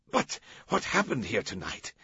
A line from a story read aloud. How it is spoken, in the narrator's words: someone stammered